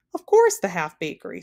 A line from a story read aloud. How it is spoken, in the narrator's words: snapped the king